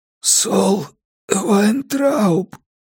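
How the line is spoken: Rasped. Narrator (Russian): прохрипел я

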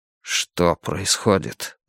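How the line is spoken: Whisper. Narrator (Russian): прошептал он

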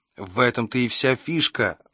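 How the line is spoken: Exclaimed. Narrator (Russian): воскликнул Кевин

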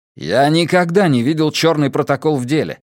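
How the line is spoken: Bark. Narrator (Russian): рявкнул Матиас

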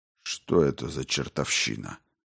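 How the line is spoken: Muttering. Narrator (Russian): пробормотал майор

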